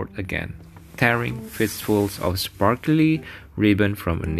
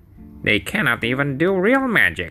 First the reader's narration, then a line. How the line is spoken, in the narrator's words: Grisabel grumbled to herself